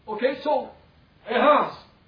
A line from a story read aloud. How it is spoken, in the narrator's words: he cried because he's thinking about the heaviness descended